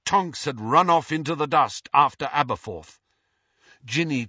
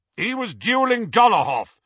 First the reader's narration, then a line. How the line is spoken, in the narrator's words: shouted Aberforth